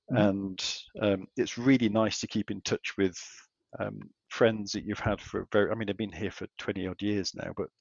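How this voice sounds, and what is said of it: English accent. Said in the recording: “as you can tell from my accent, I am a pom”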